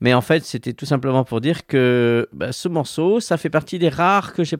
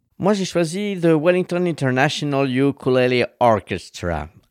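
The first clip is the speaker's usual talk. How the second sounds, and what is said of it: French speaker's put-on English accent. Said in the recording (French): “je fais mon, savant là avec mon petit accent anglais”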